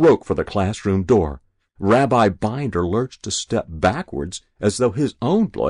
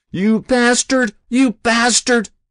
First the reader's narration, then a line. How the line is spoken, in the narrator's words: Ozzy screamed